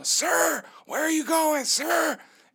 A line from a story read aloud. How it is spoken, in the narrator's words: a nurse shout at me down the hall